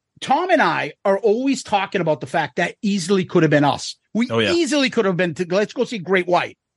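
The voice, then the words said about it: Boston accent. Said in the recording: “we're from Boston, if you can't tell from this accent.”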